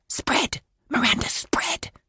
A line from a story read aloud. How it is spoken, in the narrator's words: I hissed